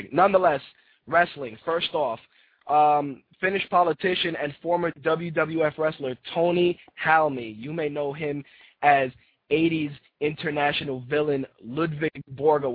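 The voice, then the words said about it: Hoarse, rough voice. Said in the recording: “I have a little bit of laryngitis, so if my voice sounds a little shitty”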